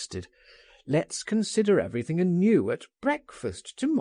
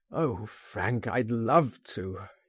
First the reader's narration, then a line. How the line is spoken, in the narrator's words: he groaned